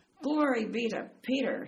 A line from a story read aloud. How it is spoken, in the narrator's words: he roared